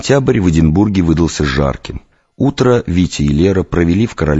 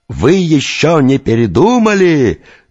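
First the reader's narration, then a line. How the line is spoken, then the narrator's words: Actor yelling. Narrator (Russian): завопил лицедей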